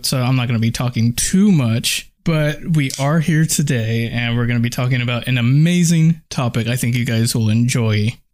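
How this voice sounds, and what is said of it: Sick voice with sore throat. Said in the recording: “I'm a little bit sick. ... I have a sore throat”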